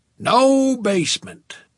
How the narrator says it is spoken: Snakeskin Boots replied, booming it as if the lack of a basement were an advantage

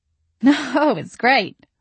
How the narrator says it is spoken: I giggled

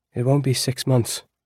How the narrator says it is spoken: Eris said

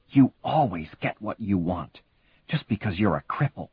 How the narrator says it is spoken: Katie whispered hissingly in his ear

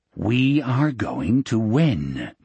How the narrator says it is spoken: Morgan repeated in that same calm voice

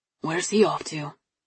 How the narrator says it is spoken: Dad asked quietly

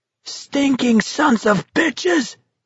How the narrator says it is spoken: Garrity shrieked at them

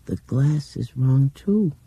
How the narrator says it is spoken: she said in that dreaming voice

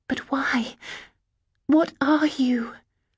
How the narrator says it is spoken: gasped

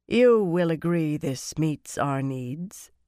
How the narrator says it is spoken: Lelaine said calmly

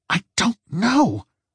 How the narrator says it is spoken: she snapped

